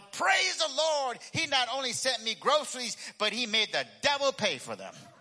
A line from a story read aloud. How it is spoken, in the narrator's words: The lady started jumping up and down and shouting even louder